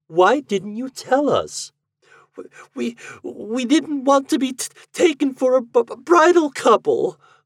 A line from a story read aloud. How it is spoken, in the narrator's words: sobbed Mrs